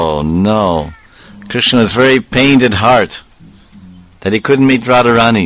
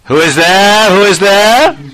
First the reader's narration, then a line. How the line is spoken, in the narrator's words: Jatila called out